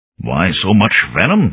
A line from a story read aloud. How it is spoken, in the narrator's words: Inskip asked in an arid voice